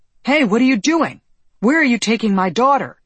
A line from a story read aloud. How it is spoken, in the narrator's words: he shouted